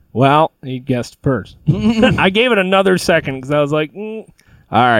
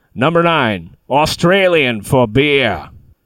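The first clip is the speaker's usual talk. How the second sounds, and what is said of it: Poor put-on Australian accent. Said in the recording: “my terrible Australian accent”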